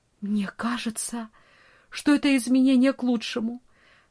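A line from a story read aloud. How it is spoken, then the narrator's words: Trembling hopeful voice. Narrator (Russian): в ее глазах загорелся свет надежды, и дрожащим голосом она произнесла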